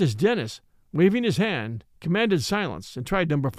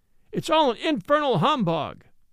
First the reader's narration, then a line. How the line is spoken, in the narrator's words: A boy in the gallery cried in a loud tone